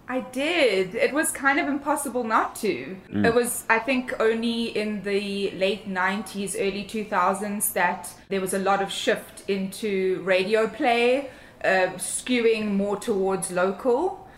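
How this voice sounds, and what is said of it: South African accent. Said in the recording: “your accent, your lovely accent, you're from Cape Town originally”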